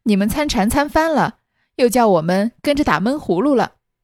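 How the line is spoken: Laughing. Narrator (Chinese): 袭人笑了

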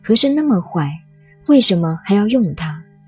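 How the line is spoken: Plain. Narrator (Chinese): 乾隆说

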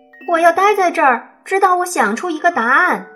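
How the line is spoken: Grandmother shouting. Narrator (Chinese): 奶奶朝他喊道

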